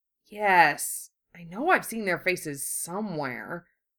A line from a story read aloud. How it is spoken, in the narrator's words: Wu Fei murmured thoughtfully